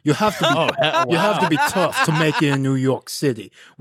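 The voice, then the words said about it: Put-on New York accent. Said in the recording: “in my New York voice.”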